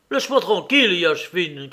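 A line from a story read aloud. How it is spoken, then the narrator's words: Angry shout. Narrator (French): cria-t-il avec colère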